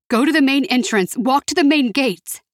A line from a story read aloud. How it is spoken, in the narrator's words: Ashley shouted